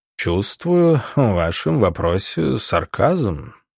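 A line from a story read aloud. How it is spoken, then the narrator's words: Purring. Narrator (Russian): промурлыкал он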